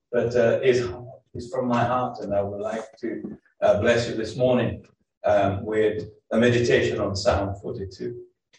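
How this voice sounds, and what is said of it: Brazilian Portuguese accent in English. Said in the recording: “I'm originally from Brazil. You may wonder what accent that I have ... you may hear some funny words, funny accent, maybe wrongly said”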